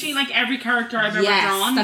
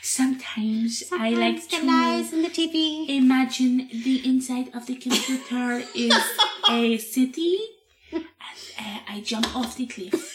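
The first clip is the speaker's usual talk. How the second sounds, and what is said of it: Imitates a singer's voice. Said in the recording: “good Bjork impression ... That was a very good Bjork impression”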